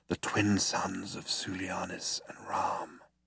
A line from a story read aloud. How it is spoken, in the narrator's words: breathed Zaphod